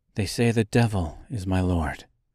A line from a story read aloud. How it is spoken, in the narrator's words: she said coldly